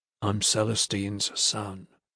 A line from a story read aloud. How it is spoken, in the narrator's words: he said quietly